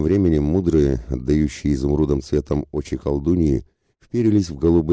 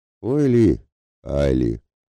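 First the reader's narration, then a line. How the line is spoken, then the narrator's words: Gloomy mocking imitation. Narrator (Russian): передразнил ворожею мрачно Ратибор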